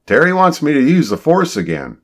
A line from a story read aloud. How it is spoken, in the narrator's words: John shouted